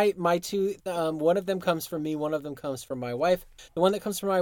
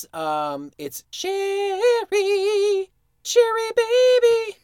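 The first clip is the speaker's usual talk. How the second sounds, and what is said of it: Sings in a falsetto voice. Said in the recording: “Frankie Valli. That was my best falsetto for you guys.”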